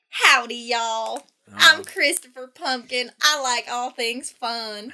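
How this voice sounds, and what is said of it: Country bumpkin character voice. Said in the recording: “He's a country bumpkin”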